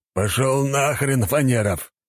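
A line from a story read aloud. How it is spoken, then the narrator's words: Barking shout. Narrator (Russian): рявкнул Валера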